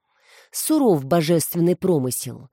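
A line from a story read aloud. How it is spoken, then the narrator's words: Sighed. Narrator (Russian): вздохнула продюсер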